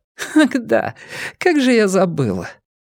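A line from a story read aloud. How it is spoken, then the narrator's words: After a short hysterical giggle. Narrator (Russian): коротко истерически хихикнув, сказала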